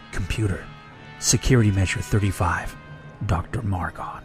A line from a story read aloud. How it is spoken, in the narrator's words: Margon's lip quivered only slightly as he whispered